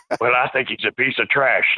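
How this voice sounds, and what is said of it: Stone Cold Steve Austin impression. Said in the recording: “my Stone Cold impression ... It's spot on.”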